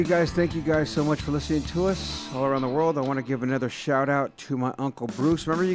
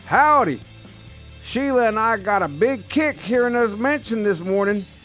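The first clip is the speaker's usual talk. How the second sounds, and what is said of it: Exaggerated Texan twang. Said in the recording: “I had this whole little accent that he doesn't have ... he does have a little twang into him, so I'm gonna put a little more on you”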